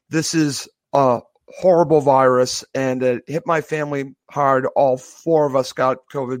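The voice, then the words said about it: Voice still sounds unwell. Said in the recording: “he can still hear it in my voice from COVID-19”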